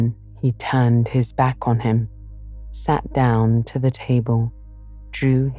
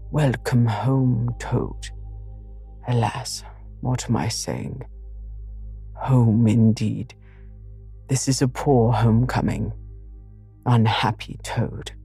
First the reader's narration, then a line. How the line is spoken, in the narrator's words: solemnly said